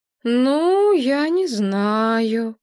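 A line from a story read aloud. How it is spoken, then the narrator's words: Calm drawl. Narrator (Russian): протянула она, вспомнив, что с психами нужно разговаривать спокойным голосом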